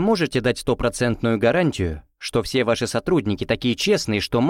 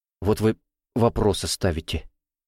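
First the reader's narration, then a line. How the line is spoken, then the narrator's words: Displeased muttering. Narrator (Russian): пробормотал недовольно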